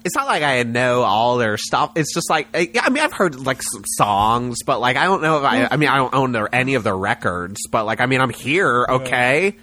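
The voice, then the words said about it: Impression of an insecure young woman. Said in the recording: “the girl who ... can give a good impression of”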